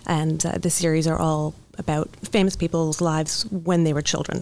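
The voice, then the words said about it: Slight British accent. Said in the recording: “I detect just a bit like a British accent there? ... I'm picking up a little.”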